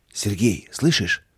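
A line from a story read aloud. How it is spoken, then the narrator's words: Whispered. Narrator (Russian): прошептал Михаил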